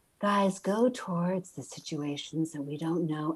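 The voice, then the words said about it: Exaggerated calm, soothing voice. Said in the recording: “I think it's more that voice that always wants to seem really calm”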